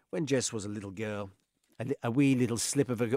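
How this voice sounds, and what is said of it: Put-on accent. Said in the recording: “Why have I forgot this accent?”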